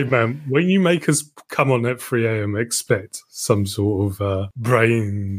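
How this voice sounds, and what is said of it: Usual voice. Nothing is said of it.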